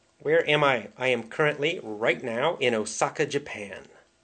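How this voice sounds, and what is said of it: Standard Midwestern American accent. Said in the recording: “I love your standard mid-American accent”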